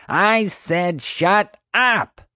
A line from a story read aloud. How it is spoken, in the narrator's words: Marge roared